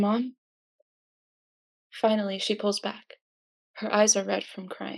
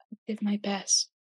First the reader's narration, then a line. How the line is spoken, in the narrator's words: Izuku whispers